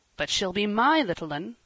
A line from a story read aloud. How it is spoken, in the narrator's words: said Marner, rather hastily